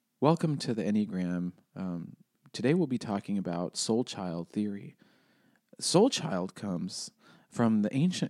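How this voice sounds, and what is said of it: Drab, monotone presenter voice. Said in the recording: “this Enneagram world ... is so drab. Everybody's like, let me do an impression. ... that's the tone. And it's like, that's tone for 2 hours.”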